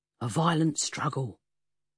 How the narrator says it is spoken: Jerry pronounced gravely

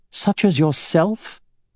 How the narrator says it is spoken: she said in a scornful tone

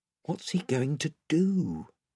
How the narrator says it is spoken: whispered Eustace to Edmund

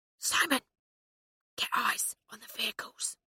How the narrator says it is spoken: he whispered

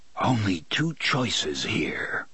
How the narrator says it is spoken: Roland whispers

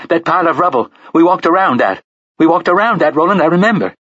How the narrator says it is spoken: she shouted

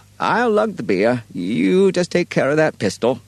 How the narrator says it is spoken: Birdie quavered

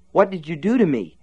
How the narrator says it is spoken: gasped

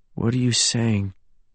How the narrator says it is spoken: James asked faintly, as if he already knew the answer

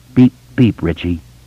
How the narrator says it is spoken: Eddie said in a wavering voice

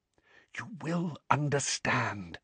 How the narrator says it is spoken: whispered Dumbledore

